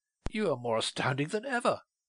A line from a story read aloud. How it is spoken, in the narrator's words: exclaimed at last